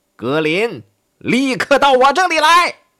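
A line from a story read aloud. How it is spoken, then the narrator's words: Loud command. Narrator (Chinese): 他大声命令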